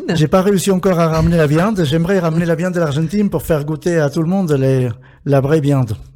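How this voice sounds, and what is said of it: Argentine accent speaking French. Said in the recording (French): “Des plats argentins aussi, liés à votre accent, vos origines.”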